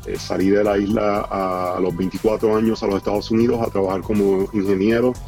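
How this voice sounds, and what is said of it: Puerto Rican Spanish accent. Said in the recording (Spanish): “como podrán notar por mi acento, puertorriqueño”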